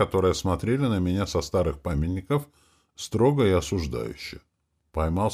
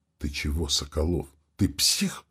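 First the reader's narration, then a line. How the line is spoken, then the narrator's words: Loud whisper. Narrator (Russian): выдал Милославский громким шепотом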